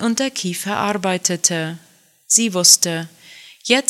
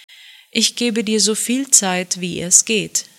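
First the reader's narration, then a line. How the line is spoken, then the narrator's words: Plain. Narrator (German): sagte er schließlich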